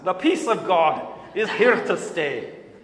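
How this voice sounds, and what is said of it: Put-on Scottish accent. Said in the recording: “I have to say in a Scottish accent”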